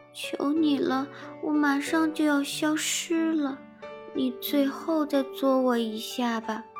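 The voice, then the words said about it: Small, weak, feeble voice. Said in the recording (Chinese): “细小又虚弱的声音”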